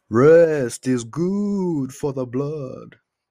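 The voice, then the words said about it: Bad Dracula voice. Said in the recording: “my terrible Dracula impression.”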